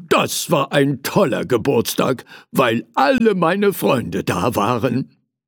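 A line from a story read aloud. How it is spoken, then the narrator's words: Calling out. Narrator (German): rief er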